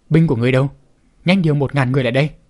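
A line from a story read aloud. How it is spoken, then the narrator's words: Barking angrily. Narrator (Vietnamese): quát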